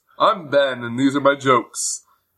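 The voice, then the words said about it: Put-on radio voice. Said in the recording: “I think I'm going to start doing a radio voice for the show, because I hate my voice ... But what if I talk like this? ... This is my radio voice.”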